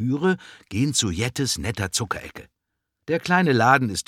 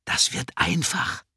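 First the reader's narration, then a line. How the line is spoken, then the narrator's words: Whisper. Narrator (German): flüstert Ella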